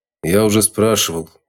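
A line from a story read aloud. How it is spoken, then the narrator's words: Gloomy grumble. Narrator (Russian): хмуро буркнул Водяной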